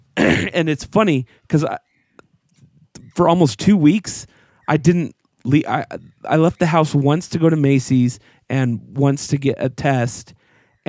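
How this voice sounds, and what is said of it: Voice still not back to normal. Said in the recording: “you can even hear now that my voice isn't back”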